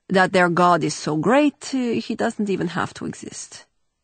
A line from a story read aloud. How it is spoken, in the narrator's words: Vege replied dryly